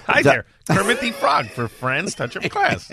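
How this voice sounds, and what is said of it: Kermit the Frog impression. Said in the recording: “You want Kermit the Frog?”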